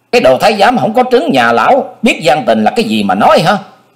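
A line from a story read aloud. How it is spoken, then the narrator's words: Furious old man. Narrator (Vietnamese): Lãnh Quyền quá tức giận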